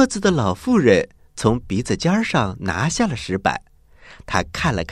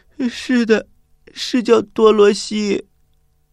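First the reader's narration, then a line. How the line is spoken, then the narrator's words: Child crying. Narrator (Chinese): 小女孩哭着回答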